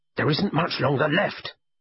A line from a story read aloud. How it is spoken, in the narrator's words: he snapped into the phone